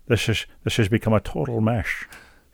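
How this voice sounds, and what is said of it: Sean Connery impression. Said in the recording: “my beloved Sean Connery impersonation”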